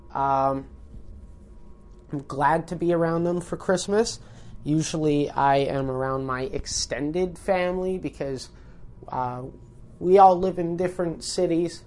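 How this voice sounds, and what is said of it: Sick, congested-sounding voice. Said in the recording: “If you can't tell by my voice, I am just getting over a cold yet again.”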